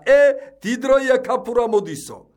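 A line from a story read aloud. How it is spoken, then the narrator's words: Called out. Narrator (Georgian): ვიღაცამ დაიძახა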